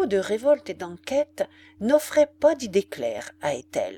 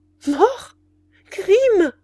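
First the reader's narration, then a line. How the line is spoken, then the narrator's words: Poor child exclaiming. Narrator (French): s'écria la pauvre enfant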